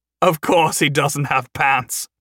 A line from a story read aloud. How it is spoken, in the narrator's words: Rufus laughed, the delight at seeing his friend thicken his voice